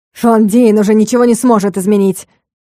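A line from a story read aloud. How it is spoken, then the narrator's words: Evil shout. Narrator (Russian): выкрикнуло зло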